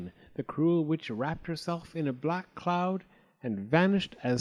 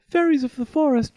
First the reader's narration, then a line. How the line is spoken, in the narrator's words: cried